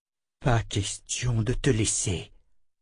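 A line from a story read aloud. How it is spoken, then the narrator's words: Breathed softly. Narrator (French): souffla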